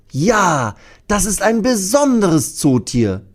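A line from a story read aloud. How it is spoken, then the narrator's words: Loud call. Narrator (German): ruft Thea laut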